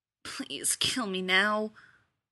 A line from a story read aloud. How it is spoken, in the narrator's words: he muttered